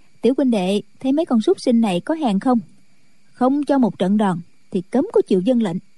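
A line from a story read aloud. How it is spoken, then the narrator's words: Smiling. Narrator (Vietnamese): Chu Cửu Chân mỉm cười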